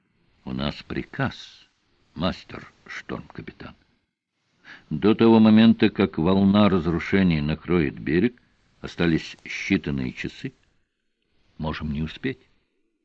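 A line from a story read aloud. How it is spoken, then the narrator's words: Quiet. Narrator (Russian): Тихо он ответил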